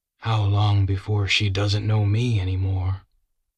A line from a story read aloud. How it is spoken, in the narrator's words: Castleman sighed